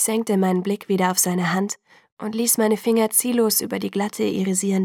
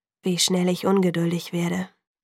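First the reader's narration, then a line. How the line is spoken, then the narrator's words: Sigh. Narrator (German): seufzte er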